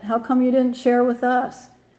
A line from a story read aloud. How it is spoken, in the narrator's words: shouted Armpit